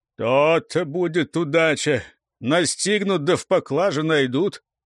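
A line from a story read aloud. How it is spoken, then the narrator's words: Pensive grumbling. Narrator (Russian): раздумывая, как поступить, ворчал непогоде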